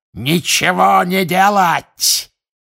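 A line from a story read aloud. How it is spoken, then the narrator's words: Shout. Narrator (Russian): крикнул Волан-де-Морт своим приспешникам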